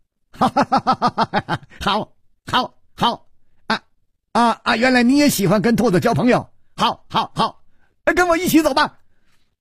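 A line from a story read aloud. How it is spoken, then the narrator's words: Laughing loudly. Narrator (Chinese): 薛宝宝反而大笑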